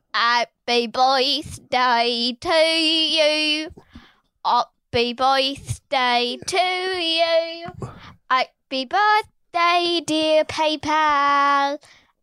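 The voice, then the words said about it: Put-on British accent, singing. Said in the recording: “That's me getting my British accent.”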